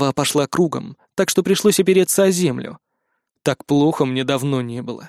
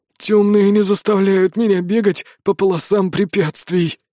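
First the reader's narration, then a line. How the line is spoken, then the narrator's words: Hoarse wheeze. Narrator (Russian): прохрипел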